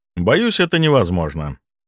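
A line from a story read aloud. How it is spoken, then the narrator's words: Calm. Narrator (Russian): спокойно сказал я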